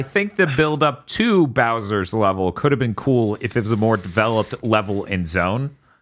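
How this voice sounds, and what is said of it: Usual voice. Nothing is said of it.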